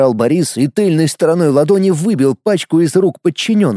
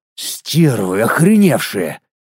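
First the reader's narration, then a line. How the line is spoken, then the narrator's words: Growling. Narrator (Russian): прорычал Бурый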